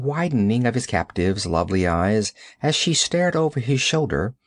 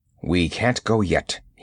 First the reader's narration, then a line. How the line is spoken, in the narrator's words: he grunted